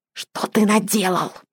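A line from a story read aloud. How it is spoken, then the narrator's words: Hissed. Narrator (Russian): прошипел другой голос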